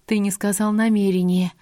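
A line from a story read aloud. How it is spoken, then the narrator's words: Relieved female exhale. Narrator (Russian): с облегчением выдохнула я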